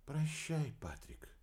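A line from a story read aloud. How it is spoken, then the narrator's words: Tearful whisper. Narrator (Russian): тяжело вздохнула, смахнула с глаз слезы, прошептав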